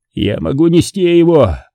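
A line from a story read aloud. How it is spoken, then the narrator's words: Shouted. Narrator (Russian): крикнул Марк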